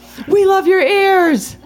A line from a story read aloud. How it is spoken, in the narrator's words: scream